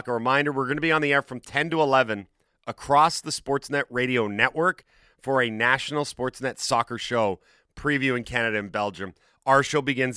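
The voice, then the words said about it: Nearly out of breath. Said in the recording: “I'm almost out of breath.”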